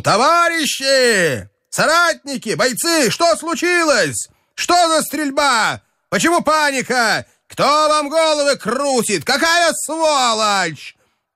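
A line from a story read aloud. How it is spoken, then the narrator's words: Shout. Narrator (Russian): крикнул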